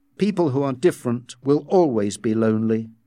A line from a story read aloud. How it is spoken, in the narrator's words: he said